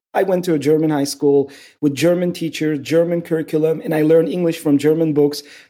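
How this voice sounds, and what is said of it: Mixed Turkish and German-influenced English accent. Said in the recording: “I have this crazy accent. And it's not just Turkish, all these other languages mix in.”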